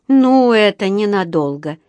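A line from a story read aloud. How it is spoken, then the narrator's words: Gloomy prediction. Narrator (Russian): мрачно предрекла миссис Бёрд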